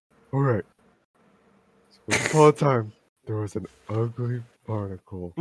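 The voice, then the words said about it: Cartoon Patrick Star character voice. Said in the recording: “put on the right voice. ... You do a really good Patrick impression.”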